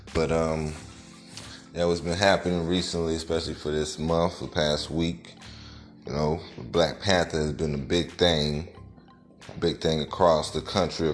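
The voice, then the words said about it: Raspy voice from a cold. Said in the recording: “my voice sounds a little raspy. I am fighting the cold right now.”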